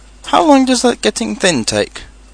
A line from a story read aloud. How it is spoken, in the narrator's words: asked Pooh anxiously